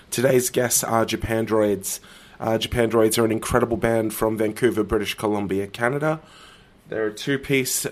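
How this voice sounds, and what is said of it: Sick, strained-sounding voice. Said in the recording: “As you can probably tell from my voice, I'm not doing heaps well at the moment ... you're just going to have to deal with this voice for a couple of minutes”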